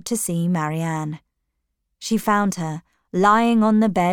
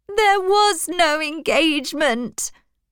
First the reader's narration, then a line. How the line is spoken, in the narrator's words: cried Marianne